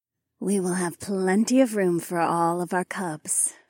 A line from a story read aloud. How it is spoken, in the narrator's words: Phyla purred